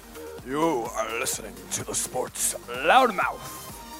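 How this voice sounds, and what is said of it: Deep, scary put-on voice. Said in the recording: “The deep voice. Give me a deep voice ... That is horrible ... it's a scary voice”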